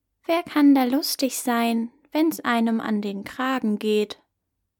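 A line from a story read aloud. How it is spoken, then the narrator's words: Plain. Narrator (German): antwortete die Katze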